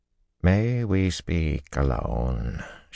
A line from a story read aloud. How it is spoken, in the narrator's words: she asked quietly